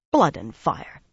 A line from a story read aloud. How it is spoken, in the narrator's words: Dosine growled